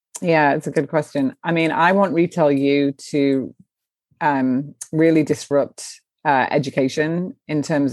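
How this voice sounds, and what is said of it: English accent. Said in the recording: “the English accent probably helped, you know, living in the States”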